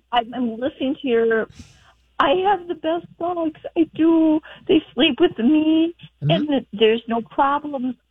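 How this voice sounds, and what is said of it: Minnesota accent. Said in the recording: “We're up in northern Minnesota. ... I'm trying to use my accent the best that I can do.”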